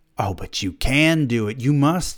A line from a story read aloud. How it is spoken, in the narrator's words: he said